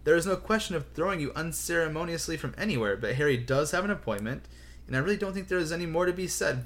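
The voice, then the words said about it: Slightly exasperated voice. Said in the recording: “in a slightly exasperated voice”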